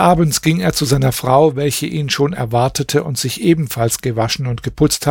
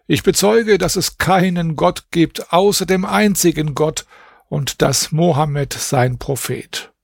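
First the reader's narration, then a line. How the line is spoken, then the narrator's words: Exclaiming. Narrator (German): rief aus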